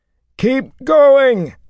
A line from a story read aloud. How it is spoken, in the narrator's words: Matt bellowed